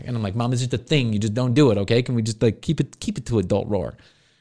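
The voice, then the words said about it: Put-on Italian-American accent. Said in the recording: “Did she just all of a sudden turn Italian right there?”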